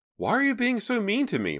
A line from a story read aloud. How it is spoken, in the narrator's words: blurted out